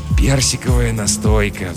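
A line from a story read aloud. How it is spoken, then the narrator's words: Sighing. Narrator (Russian): вздохнул Жихарь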